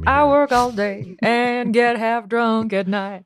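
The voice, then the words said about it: Bad blues singer impression. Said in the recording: “my bad impression of a blues singer”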